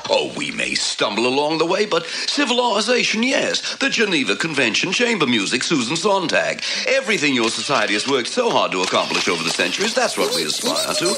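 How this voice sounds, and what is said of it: Gremlin voice veering Australian. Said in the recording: “Australian talking gremlin... you can hear it veer off into that accent”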